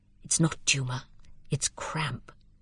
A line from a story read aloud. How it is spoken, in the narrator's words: Lydgate said to the house surgeon in an undertone